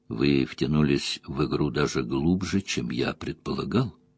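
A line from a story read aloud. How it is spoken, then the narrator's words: Quiet. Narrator (Russian): тихо произнес Бартенс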